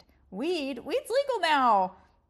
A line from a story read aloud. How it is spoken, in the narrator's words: Mimi exclaimed